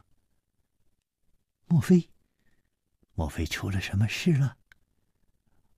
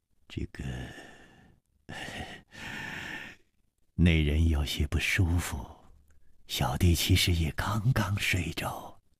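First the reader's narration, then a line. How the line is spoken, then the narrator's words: Sighing. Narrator (Chinese): 李玉涵也叹了一口气说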